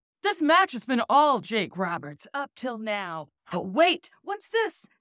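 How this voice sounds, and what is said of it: Wrestling announcer voice. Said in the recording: “read it in your best wrestling announcer voice”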